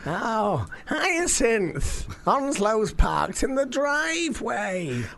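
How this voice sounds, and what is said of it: Impression of Richard Bucket. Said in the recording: “We do some great impressions ... It's a good impression ... That's a very good impression ... that is a very good impression of a Richard Bucket from Keeping Up Appearances”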